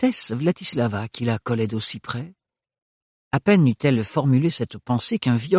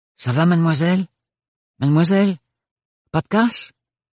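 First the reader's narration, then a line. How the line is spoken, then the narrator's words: Muffled, confused voice. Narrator (French): Le gendarme s'exprimait d'une voix confuse sous ses moustaches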